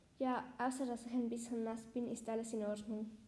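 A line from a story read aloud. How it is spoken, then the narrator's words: Plain. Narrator (German): sagte Lina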